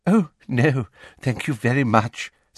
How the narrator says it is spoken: said Umbridge with that simpering laugh

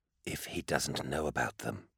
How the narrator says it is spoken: Cirrus said, more softly now

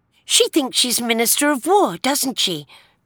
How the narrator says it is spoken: Joe blurted out

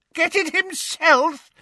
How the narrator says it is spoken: shrieked Bellatrix over a cackle of mad laughter

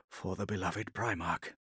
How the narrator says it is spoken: said softly, speaking by closed vox

